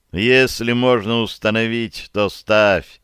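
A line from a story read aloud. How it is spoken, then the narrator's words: Laughing. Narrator (Russian): засмеялся я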